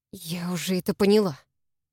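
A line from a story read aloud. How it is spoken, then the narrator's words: Grumbled, suppressing a tremble. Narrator (Russian): буркнула, пытаясь сдержать дрожь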